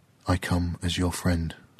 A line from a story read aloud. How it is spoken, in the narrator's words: Kua'ai whispered to the tree